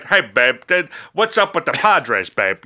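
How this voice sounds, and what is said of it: Imitates another person's voice. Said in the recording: “Was that a Dennis Miller voice? ... That's like George Burns ... I'm basically doing Dana Carvey's impersonation of Dennis Miller ... my impersonation is terrible, but ... it's way better than mine.”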